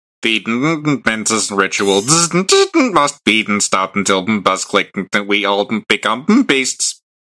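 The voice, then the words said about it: Buzzing, electrically charged character voice. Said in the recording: “in your best Spark Hunter voice? ... Like it's like a like someone who's like electrically powered.”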